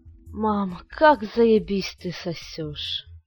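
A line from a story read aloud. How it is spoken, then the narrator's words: Boy moaning. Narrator (Russian): простонал мальчик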